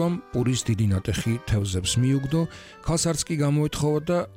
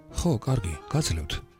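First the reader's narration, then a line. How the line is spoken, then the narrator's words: Hesitant whisper. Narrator (Georgian): ოდნავ დარწმუნებული იყო და ჩურჩულით მიუგო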